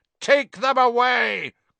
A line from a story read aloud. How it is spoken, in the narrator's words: Crouch roared at the Dementors, spit flying from his mouth